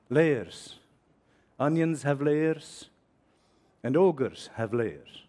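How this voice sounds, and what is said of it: Put-on Scottish accent. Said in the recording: “Excuse my Scots accent”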